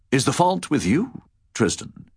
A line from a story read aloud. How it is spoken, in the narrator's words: asked the king, but it was asked in his usual kindly manner